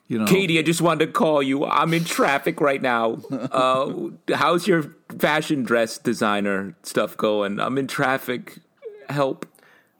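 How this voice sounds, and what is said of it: Imitates a TV character's voice. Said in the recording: “that was an amazing impression of Classically trained”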